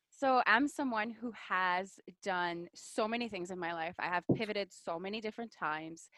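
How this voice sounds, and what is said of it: French Canadian accent. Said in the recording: “This accent that you hear is because I'm French Canadian.”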